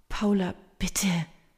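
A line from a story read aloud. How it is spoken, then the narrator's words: Soft pleading, woman. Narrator (German): fleht Maria leise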